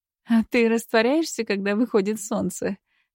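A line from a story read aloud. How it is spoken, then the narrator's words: Silly giggle. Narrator (Russian): глупо хихикнула она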